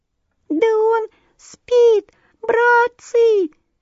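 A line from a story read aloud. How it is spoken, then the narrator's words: Tiny squeaky voice. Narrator (Russian): пропищал маленький комаришка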